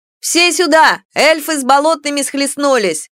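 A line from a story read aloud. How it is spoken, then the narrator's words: Sudden loud shout. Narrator (Russian): Неожиданно громко прокричал худенький юркий парень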